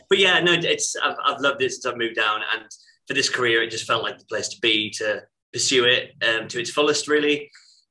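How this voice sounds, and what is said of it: Stockton-on-Tees northern English accent. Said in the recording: “I am from Stockton-on-Tees ... See, you saying Stockton's brought my accent out.”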